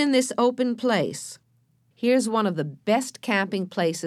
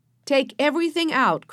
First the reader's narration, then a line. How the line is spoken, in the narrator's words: cried Joe